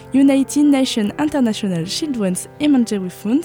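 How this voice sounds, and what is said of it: English words spoken with French accent. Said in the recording (French): “avec mon superbe accent anglais”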